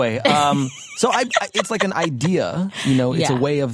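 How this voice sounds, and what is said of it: Usual voice. Nothing is said of it.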